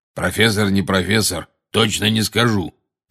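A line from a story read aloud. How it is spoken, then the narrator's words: Growling voice. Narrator (Russian): прорычал голос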